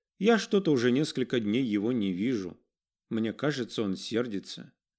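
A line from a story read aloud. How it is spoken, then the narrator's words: Boy, pausing, then sighing. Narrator (Russian): выдержав многозначительную паузу, ответил мальчик и, вздохнув, добавил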